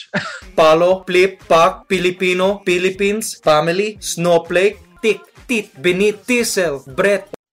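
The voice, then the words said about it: Put-on Filipino accent. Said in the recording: “I like put on my best Filipino accent and I teach the viewer how to speak the Pinoy way, English.”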